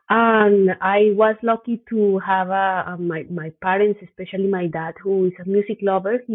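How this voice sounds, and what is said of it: Colombian accent in English. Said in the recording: “what is this accent from where is this accent from so i was born in colombia”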